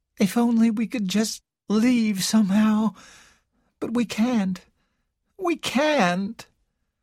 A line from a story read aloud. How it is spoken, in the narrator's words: Carol said in a hopeless voice